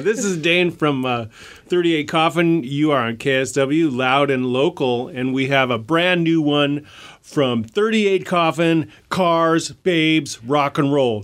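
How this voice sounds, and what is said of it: Cheesy morning radio DJ voice. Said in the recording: “in the cheesiest morning radio way possible ... the cheesiest morning radio voice”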